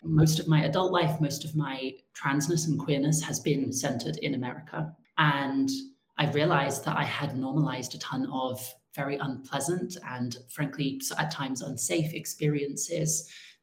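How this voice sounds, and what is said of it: English accent. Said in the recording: “even though I grew up in England, hence the accent”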